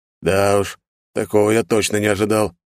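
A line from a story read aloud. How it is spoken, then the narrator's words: Heavy sigh. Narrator (Russian): произнес Эдвард, тяжело вздохнув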